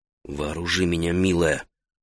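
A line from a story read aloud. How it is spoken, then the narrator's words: Whisper. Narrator (Russian): прошептал он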